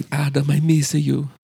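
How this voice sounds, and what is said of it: Bad put-on Italian accent. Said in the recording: “the worst Italian accent”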